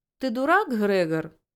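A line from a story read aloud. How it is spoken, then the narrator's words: Short laugh. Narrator (Russian): хохотнул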